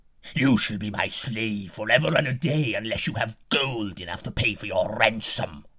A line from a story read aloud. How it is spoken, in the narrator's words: the giant roared